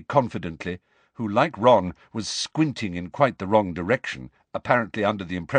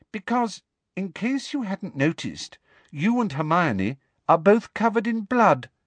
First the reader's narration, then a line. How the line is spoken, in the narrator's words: said coolly